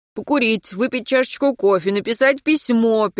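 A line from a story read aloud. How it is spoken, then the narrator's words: Irritated listing. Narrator (Russian): перечислял Антон раздраженно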